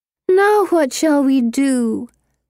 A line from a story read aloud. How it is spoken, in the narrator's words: Pippa whines